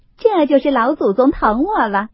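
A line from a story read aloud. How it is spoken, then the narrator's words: Laughing. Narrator (Chinese): 凤姐儿笑道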